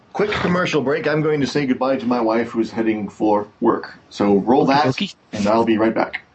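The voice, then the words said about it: Mock radio announcer voice. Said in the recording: “I'm talking like an announcer for some reason.”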